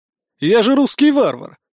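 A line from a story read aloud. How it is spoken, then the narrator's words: Chuckling. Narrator (Russian): хохотнул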